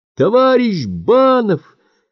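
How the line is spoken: Shouting. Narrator (Russian): кричала Клара

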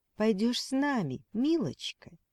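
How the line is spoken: Sugary sweet voice. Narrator (Russian): произнес коротышка самым сладким голосом

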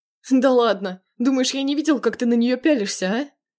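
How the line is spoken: Laughing. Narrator (Russian): Хохотнул Прохоров

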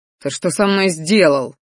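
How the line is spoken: Angry roar. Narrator (Russian): взревел на своего ящера

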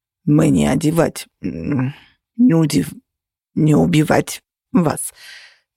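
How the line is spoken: Hoarse wheeze. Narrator (Russian): просипел наш полиглот

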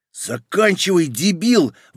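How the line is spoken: Exclaimed. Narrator (Russian): воскликнул невидимый такс

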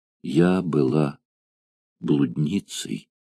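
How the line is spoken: Sobbing. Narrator (Russian): снова зарыдала

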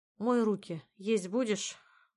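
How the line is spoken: Heavy sigh. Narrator (Russian): мама тяжело вздохнула

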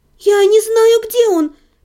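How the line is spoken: Frightened babbling. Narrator (Russian): пролепетала я, испуганно

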